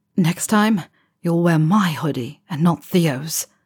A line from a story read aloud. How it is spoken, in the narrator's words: Harry says, voice a low rumble in his chest